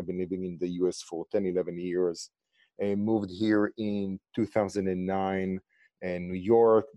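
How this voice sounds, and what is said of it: Israeli accent. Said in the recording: “as you can hear from my accent and name, I'm from Israel.”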